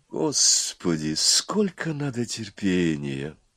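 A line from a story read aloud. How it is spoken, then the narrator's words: Weary sigh. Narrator (Russian): вздохнула первая голова Горыныч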